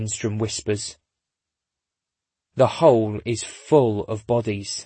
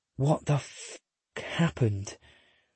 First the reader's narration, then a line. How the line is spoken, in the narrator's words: Lindstrom whispers